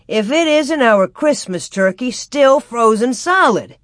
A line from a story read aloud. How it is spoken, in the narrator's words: he exclaimed